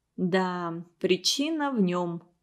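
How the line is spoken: Calm agreement. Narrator (Russian): спокойно согласилась Наталья Захаровна

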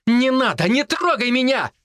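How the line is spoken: Shouted. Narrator (Russian): закричала Вика

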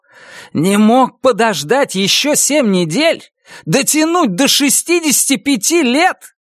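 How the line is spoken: Impatient yell. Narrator (Russian): Гарри, потеряв терпение, заорал

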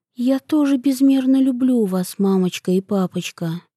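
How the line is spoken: Quiet. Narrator (Russian): тихо сказала

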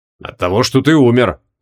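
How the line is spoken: Wizard's dry snort. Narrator (Russian): хмыкнул маг

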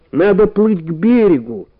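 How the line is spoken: Shouting while spitting water. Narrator (Russian): крикнул, выплевывая воду

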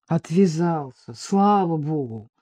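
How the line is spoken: Muttering. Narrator (Russian): пробурчал Вадим

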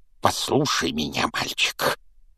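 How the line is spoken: Growl. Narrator (Russian): прорычал дядя Вернон

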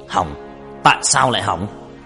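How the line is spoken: Loud shout. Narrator (Vietnamese): Hắn quát lớn

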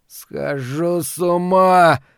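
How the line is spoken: Moaning again. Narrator (Russian): вновь простонал Ларри

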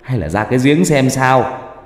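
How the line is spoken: Sudden shout. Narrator (Vietnamese): một bác hét lên

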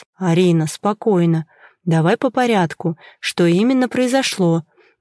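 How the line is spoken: Soft calm, suppressed anger. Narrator (Russian): Я старался говорить мягко и спокойно, хотя внутри меня уже все клокотало от злости и бессилия

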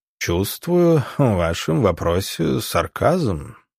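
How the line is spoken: Purred. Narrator (Russian): промурлыкал он

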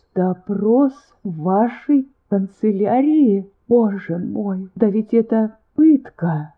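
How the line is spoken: Moaning into hands. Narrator (Russian): вновь застонала, закрыв лицо руками

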